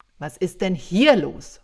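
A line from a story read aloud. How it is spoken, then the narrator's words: Thunderous bellow over chaos. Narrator (German): brüllte ich mitten ins Tohuwabohu, dass die Wände wackelten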